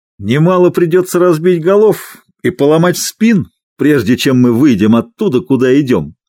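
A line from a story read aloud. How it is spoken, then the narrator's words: Cheerful reply. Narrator (Russian): весело ответил Лоулис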